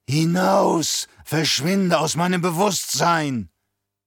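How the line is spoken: Old woman croaking. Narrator (German): Die Alte deutet mit einem Finger auf Alia und krächzte

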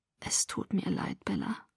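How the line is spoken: Distraught murmur. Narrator (German): murmelte verstört

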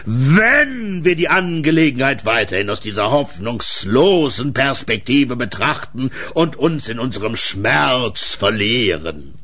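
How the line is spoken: Thunderous shout. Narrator (German): rief er dann so donnernd, dass der Balkon wackelte

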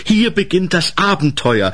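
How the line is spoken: Solemn call. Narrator (German): rief feierlich

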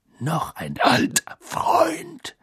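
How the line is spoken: Growling. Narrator (German): knurrte Moody

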